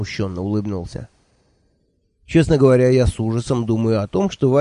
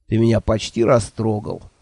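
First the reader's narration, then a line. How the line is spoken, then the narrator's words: Scoffing snort. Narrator (Russian): фыркнул мой шеф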